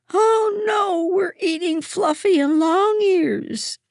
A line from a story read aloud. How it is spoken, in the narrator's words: she screamed